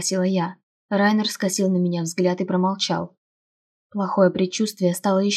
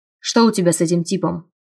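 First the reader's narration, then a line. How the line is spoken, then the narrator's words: Stern question. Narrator (Russian): спросил он строго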